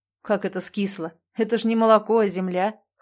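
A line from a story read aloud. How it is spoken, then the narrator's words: Scoffing snort. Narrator (Russian): хмыкнул Андрей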